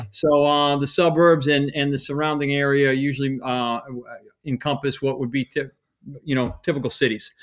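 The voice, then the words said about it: Regional accent. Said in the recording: “we can kind of pick it up a little bit from your accent”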